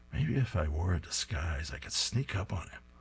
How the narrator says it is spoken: He's muttering to himself

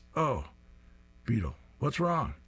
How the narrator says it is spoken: Sarge, who exclaims

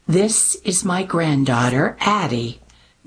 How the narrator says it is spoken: Mimi replied, lips pressed tightly to her teeth

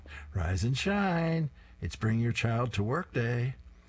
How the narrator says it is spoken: She happily sings to her son

